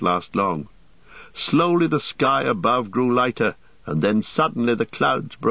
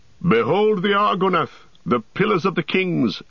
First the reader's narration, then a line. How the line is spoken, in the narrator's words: cried Aragorn